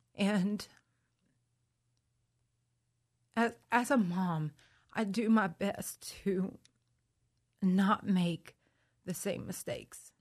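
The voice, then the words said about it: Emotional, tearful voice. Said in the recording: “I'm sorry to get emotional”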